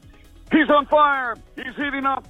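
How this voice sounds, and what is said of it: Marv Albert sportscaster impression. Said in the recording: “You literally were channeling your inner Marv Albert ... listening to Marv Albert, that voice had just stuck in my head”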